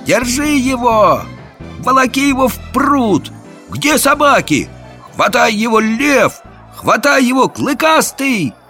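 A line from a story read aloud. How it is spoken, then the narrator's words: Many voices shouting. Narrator (Russian): Голосов 10 закричало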